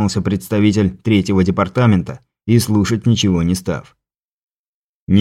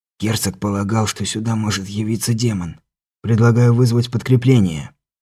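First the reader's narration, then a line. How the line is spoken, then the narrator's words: Soft whisper. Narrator (Russian): тихонько прошептал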